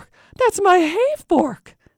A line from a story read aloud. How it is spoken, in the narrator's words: he exclaimed